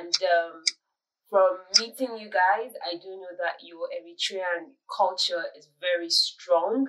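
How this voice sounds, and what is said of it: Nigerian accent. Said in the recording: “I have a very Nigerian accent... someone told me it was kind of British”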